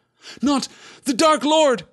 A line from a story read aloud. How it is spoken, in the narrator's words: cried Pippin, forgetting his place in his terror